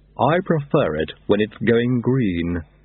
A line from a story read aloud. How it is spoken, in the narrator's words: he said haughtily